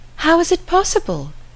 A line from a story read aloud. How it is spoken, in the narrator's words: cried Emma